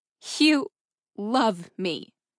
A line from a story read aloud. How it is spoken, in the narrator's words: She echoed it again slowly, trying to make the words make sense to her